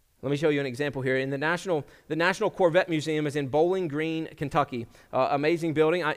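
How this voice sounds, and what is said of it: Slight Kentucky accent, somewhat Virginian. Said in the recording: “I'm from Kentucky originally ... Maybe you can hear it. A little bit of my accent has kind of become more Virginian”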